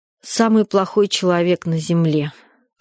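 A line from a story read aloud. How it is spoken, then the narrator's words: Tired. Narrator (Russian): ответила я устало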